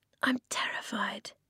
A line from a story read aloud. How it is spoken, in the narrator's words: Eska said quietly